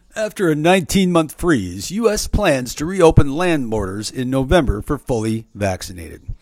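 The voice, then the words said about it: Announcer-style radio voice. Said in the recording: “let me do my radio voice.”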